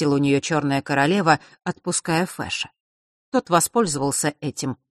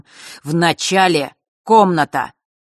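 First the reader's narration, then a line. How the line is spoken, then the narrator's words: Crisp and angry. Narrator (Russian): четко и зло произнес Рок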